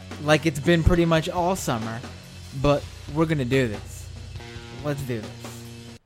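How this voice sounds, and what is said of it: Hoarse, worn-out voice. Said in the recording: “My voice is a little bit shot.”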